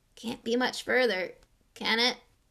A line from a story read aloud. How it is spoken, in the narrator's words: croaked Ron, hours later still